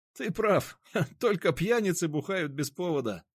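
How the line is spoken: Laughing. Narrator (Russian): рассмеялся Никита

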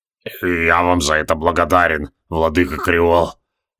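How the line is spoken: Hoarse wheeze. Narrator (Russian): прохрипел Тевилдорм

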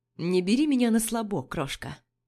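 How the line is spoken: Plain. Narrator (Russian): говорит он

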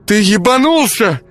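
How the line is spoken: Shrill squeal. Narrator (Russian): взвизгнула она

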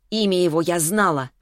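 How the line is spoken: Snapped retort. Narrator (Russian): огрызнулась Веста

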